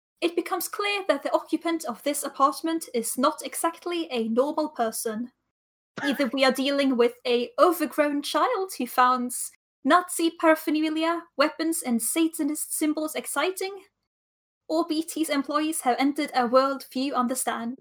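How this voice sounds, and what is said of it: Put-on British accent. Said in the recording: “I'm gonna give this a British accent”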